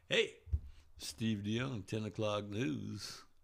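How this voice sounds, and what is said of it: Sexy newscaster voice. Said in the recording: “You got a sexy voice.”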